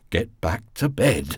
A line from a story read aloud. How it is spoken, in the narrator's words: he said unsteadily